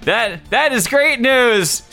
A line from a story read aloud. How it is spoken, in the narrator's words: Saria said cheerfully